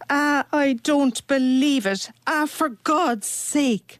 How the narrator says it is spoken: she cried

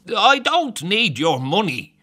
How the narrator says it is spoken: the blind man snaps

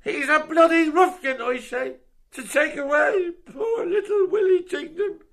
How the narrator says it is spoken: Bob Jordan shouts out of him

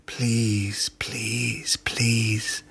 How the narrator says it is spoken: I whisper to myself

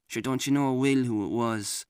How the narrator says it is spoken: mutter

